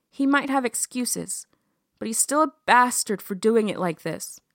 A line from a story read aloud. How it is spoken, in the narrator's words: Lillian said, very firmly